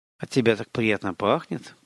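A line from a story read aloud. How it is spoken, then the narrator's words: Murmured. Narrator (Russian): пробормотал он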